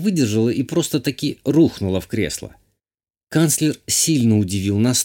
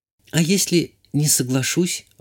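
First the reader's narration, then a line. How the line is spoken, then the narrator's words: Timid girl asking. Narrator (Russian): робко спросила девушка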